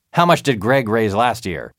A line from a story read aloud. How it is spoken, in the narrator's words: he barked